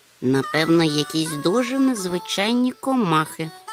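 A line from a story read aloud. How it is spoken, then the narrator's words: Muttered under breath. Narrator (Ukrainian): буркнув собі підніс Гемуль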